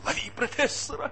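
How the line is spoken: Shrill squeal. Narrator (Russian): взвизгнул Иванов Панкрату

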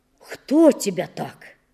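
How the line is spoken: Agitated exclamation. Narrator (Russian): Он не умел брать себя в руки и с порога воскликнул

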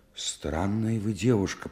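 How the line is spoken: Muttered. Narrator (Russian): пробормотал Стримухов

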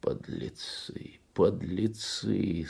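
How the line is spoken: Moaning. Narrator (Russian): стонал Кунчинос

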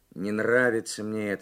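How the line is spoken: Gloomy. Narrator (Russian): сказал Карсон и мрачно

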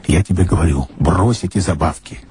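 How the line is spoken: Irritated urging from below. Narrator (Russian): раздраженно убеждал внизу коломеец

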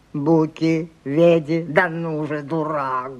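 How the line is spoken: Hoarse voice. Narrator (Russian): говорил сиплый голос

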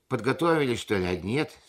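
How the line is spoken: Gruff tone hiding worry. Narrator (Russian): спросила, пряча за грубоватым тоном материнскую свою тревогу

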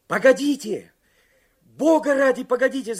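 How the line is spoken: Shout. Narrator (Russian): закричал Карсон

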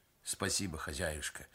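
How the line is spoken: Gentle affectionate craftsman. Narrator (Russian): ласково сказал мастер

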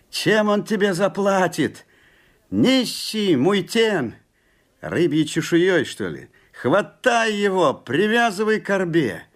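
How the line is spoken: Angry crowd shouting. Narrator (Russian): Закричали муйтены

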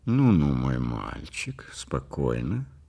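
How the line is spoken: Quiet, soothing. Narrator (Russian): тихо сказал Ривкин

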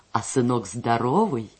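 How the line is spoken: Giggling. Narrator (Russian): Ульяша хихикнула

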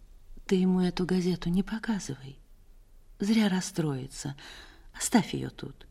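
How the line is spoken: Quiet. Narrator (Russian): Она тихо сказала

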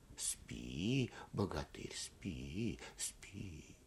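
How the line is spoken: Whispered repetition. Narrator (Russian): шепотом повторяют

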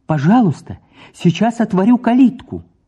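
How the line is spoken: Joyful, welcoming. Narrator (Russian): Среднев отметил радостно-радушно

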